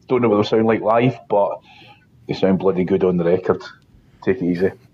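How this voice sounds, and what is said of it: Accent like Sick Boy from Trainspotting. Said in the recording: “What an amazing accent. I thought I was listening to Sick Boy from Trainspotting there.”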